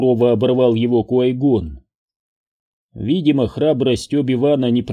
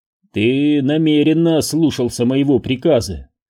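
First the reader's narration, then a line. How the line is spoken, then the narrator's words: Even, level voice. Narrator (Russian): ровным голосом произнес Куай-Гон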